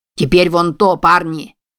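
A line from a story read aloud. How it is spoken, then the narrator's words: Male shout. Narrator (Russian): крикнул он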